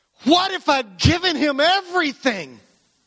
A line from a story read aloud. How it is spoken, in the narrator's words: all of a sudden, he yells